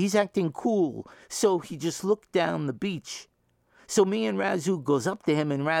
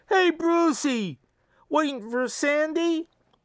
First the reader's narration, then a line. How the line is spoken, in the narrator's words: So we holler